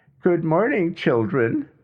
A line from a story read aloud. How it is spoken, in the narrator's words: June said in that ever so happy voice